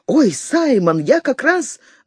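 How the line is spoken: High excited voice. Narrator (Russian): Он сказал высоким возбужденным голосом

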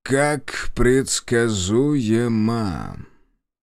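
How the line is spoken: Almost bored male tone. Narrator (Russian): произнес он почти скучающим тоном

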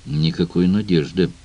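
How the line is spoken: Grumble. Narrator (Russian): буркнул Грирсон

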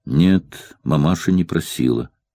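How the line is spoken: Quiet calm grown-up tone. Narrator (Russian): сказал Иван по-взрослому, тихо и спокойно

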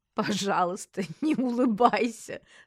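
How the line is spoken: Laughing. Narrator (Russian): сквозь смех сказала я

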